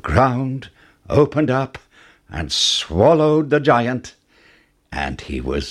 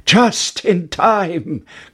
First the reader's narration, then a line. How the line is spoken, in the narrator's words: cried Jack